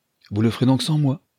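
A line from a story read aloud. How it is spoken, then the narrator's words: Plain. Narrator (French): dit madame Rodrigue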